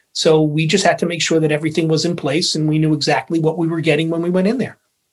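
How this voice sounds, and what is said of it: New York accent. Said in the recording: “it's always nice to hear that New York accent again ... when I get tired, it really comes out”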